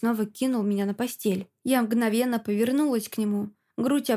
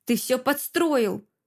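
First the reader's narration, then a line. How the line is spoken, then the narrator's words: Through gritted teeth. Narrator (Russian): Процедила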